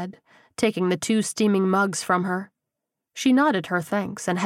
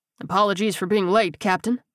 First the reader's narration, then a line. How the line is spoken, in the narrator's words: he said gruffly